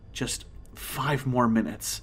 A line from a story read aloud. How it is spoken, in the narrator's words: I muttered